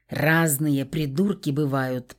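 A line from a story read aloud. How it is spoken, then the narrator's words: Grumble. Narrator (Russian): проворчал Глеб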